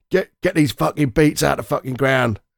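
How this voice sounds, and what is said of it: Jason Statham impression. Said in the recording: “your Jason Statham impersonation”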